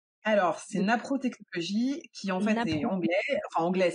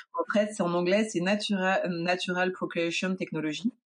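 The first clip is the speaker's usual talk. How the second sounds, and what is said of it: Speaking English with an accent. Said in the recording (French): “On admirera mon accent anglais au passage.”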